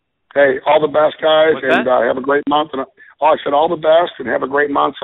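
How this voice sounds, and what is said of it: Hoarse, worn-out voice. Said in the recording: “my voice is bad. I've been in Chicago for the last week, and it's been 30 below. So my voice is shot.”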